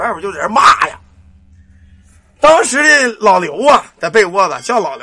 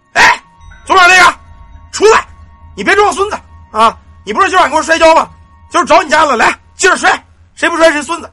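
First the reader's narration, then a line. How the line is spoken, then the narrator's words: Shouting from outside. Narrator (Chinese): 就听外边人喊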